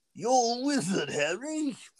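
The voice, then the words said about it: Bad put-on British accent. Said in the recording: “That's my British accent. ... it's not the worst one I've heard. ... I do some pretty bad accents. ... you're notoriously bad at that.”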